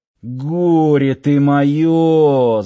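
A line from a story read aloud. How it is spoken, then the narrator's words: Groan. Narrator (Russian): застонал начальник охраны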